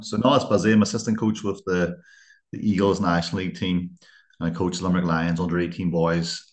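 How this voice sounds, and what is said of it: Northern Irish accent. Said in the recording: “my northern accent”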